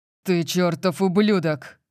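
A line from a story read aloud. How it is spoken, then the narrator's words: Roared. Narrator (Russian): проревел Лэнс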